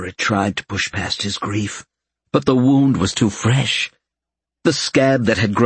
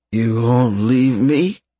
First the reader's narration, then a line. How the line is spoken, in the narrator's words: He asked, his words slurring